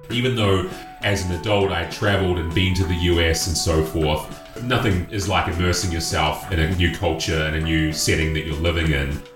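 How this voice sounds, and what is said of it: New Zealand accent. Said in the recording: “My accent always stuck out like crazy. They don't get too many Kiwis”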